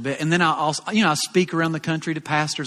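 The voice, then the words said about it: Southern American accent. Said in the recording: “you are southern ... my southern accent”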